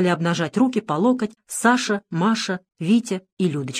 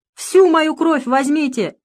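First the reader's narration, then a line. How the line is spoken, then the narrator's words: Desperate scream. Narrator (Russian): Ее охватило отчаяние, и она закричала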